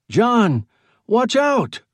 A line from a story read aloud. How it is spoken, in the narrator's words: He shouted